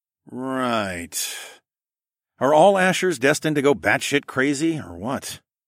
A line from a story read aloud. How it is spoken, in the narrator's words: sighed